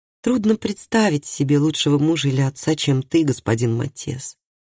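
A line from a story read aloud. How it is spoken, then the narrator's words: Soft woman's voice. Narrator (Russian): мягко сказала она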